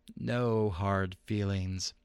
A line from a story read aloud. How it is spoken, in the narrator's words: the Persian purred